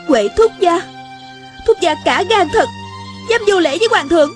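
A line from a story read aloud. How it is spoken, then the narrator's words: Angry. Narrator (Vietnamese): A Cửu giận dữ nói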